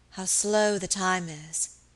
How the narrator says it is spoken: she said wearily

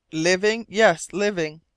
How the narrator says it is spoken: cried the half-breed

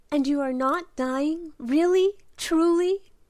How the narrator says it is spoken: cried Belle

